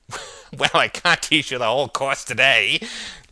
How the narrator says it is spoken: laughed Alder

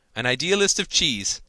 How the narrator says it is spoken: cried Gerald

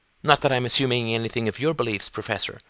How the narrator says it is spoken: added Gordon quickly

